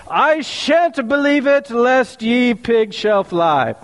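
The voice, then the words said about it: Put-on English accent. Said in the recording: “my best English impression”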